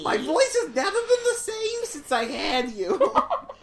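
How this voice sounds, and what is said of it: Put-on Jewish mother character voice. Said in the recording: “a Jewish woman who's, like, giving birth ... And just changes her voice.”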